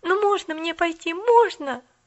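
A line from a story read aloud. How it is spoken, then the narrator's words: Pleading. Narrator (Russian): взмолилась Поллианна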